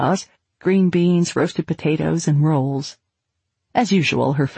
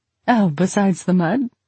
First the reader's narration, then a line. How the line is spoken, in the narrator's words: Anne laughed